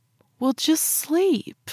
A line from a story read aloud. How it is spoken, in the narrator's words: I pleaded